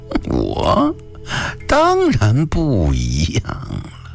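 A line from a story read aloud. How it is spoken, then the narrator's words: Hoarse eerie laughter. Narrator (Chinese): 博才听完这句话又发出一阵沙哑恐怖的笑声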